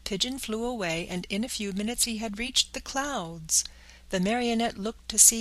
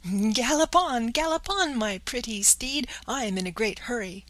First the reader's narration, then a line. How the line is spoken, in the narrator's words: he cried out gaily